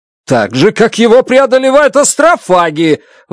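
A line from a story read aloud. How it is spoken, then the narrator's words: Shout. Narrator (Russian): выкрикнул я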